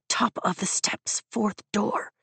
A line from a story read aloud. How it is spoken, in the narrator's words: I hiss, interrupting him